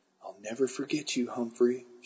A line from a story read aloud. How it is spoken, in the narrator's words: she whispered